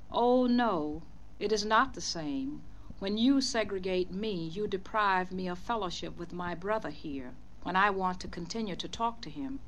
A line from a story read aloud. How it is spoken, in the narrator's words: My husband answered her kindly but firmly